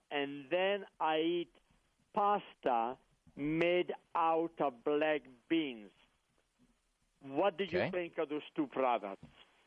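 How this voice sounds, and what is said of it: Italian accent, like Mario and Luigi. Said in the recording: “your Mario and Luigi accent”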